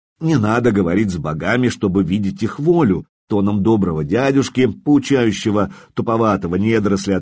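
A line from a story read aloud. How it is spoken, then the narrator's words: Plain. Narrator (Russian): ответил я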